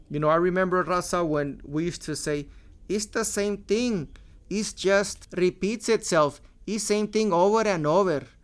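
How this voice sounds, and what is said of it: George Lopez-style Mexican accent impression. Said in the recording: “my George Lopez impression of his impression of a Mexican with an accent.”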